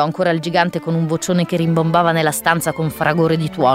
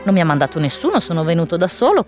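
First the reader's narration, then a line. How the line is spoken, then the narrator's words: Slightly resentful. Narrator (Italian): continuò a dire Peter in tono quasi risentito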